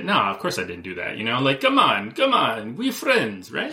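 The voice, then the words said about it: Good impression of Putin. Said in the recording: “that's a good Putin impression.”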